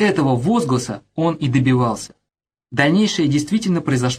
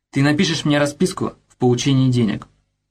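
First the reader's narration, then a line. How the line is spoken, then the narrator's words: Calm. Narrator (Russian): спокойно проговорил афганец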